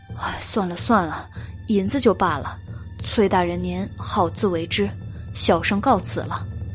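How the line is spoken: Sighing. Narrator (Chinese): 袁耀叹了一口气，道

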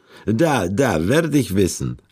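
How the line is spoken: Eastern European accent. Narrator (German): antwortete sie mit osteuropäischem Akzent

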